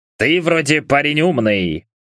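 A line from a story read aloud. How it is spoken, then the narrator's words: Witcher's snort. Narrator (Russian): хмыкнул ведьмак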